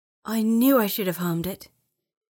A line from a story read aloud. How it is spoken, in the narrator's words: she growled, annoyed with herself